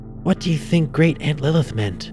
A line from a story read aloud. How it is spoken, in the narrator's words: Lisa whispered